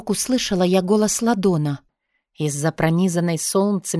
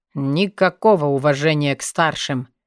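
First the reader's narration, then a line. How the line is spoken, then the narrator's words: Snorting. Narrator (Russian): фыркнул Ладон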